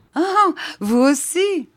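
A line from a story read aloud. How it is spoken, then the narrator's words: Laughing. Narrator (French): fit le docteur en riant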